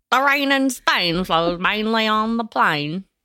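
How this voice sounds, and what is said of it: My Fair Lady style impression. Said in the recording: “flawless My Fair Lady impression”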